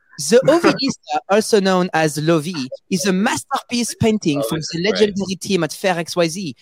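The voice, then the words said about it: Put-on French accent. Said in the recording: “let me read it in the French accent, right?”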